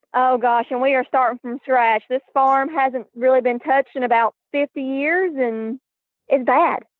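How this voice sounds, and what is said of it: Strong Southern US accent. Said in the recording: “I detect a southern accent ... I am from Tennessee ... the accent is very strong, very, very strong.”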